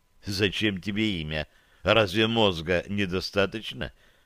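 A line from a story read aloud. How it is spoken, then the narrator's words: She-bear whispering in ear. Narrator (Russian): Прошептала мне в ухо медведица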